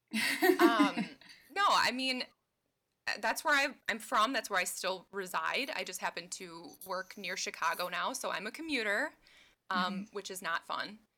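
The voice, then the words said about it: Midwestern American accent. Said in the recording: “southeastern Wisconsin, like right between Chicago and Milwaukee ... Midwest girl ... If you can't tell from my accent”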